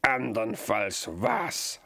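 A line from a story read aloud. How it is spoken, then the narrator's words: Beast laughing. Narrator (German): lachte das Untier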